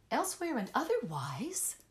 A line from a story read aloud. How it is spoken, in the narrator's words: I gasped